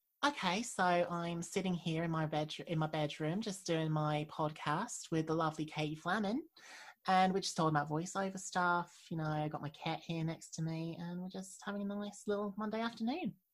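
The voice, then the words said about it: Put-on Australian accent. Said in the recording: “I feel like watching these things helps me do an uh, Australian accent a bit better.”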